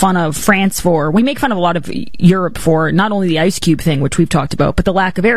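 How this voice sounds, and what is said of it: Usual voice. Nothing is said of it.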